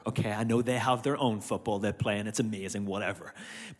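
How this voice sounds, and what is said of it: Irish accent, slightly Americanized. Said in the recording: “I'm still Irish. And to you guys, I'll still sound Irish ... how much I've become Americanized ... my accent's changed”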